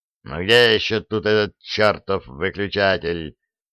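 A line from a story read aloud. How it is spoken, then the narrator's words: Growled. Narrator (Russian): прорычал Фрезби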